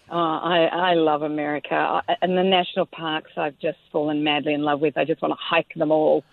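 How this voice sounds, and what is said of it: Australian accent. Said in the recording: “You're from Australia, so all our listeners recognize that accent.”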